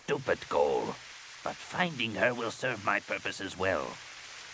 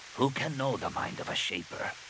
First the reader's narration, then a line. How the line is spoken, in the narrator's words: He said softly